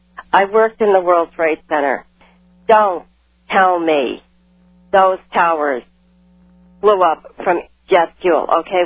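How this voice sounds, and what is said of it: New York accent. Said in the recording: “If you can tell by my accent, I'm from New York”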